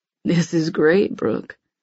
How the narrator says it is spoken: he murmurs

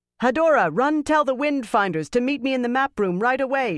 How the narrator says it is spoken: she shouted without slowing

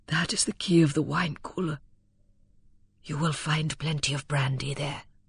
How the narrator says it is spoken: Bulstrode said huskily

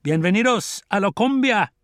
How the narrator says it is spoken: They laughed

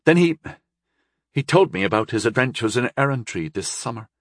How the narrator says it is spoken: she said sullenly

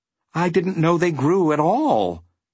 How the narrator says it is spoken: admitted Milo, even more timidly

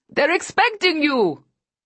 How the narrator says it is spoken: he shouts

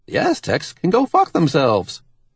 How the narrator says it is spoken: Randy says cheerfully

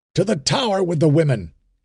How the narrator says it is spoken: he shouted

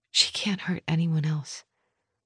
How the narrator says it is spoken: I whispered

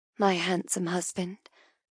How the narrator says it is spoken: I murmur

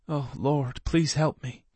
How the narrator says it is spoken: Desmond murmured

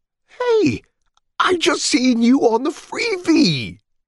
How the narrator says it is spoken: the cabbie exclaimed

